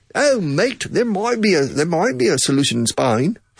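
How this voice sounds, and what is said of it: Attempted Australian accent. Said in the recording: “in Australia ... It's very difficult for me to emulate their accent.”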